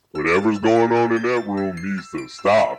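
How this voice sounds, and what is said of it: Deep demon-like voice. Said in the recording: “she had like this deep demon voice”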